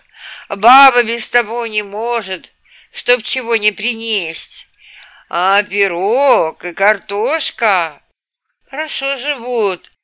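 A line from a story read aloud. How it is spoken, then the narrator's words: Sighing. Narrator (Russian): вздохнул он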